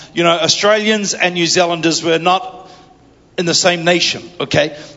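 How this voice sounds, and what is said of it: New Zealand accent. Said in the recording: “my Kiwi accent”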